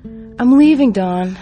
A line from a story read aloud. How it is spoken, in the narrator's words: yell one last time